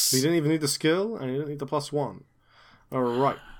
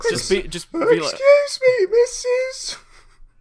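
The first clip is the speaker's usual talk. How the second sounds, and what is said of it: Man doing a small boy's voice. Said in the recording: “impersonating a middle-aged man impersonating a small boy”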